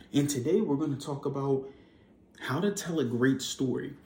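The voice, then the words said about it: Out of breath, breathy speech. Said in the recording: “I'm out of my breath ... Out of breath. I just got done doing some working out”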